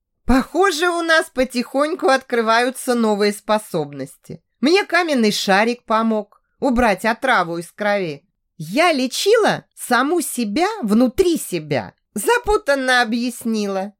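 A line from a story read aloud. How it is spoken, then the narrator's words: Laughing. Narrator (Russian): засмеялась Даша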